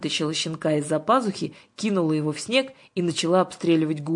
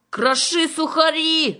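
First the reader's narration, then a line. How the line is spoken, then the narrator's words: Loud yell. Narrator (Russian): завопила Гуля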